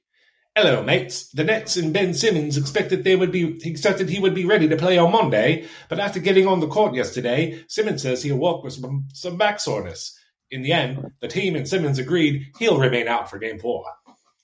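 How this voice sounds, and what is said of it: Mock British accent, slipping. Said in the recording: “Read it in a British accent, please. ... You lost it towards the end ... I'm not good at accents.”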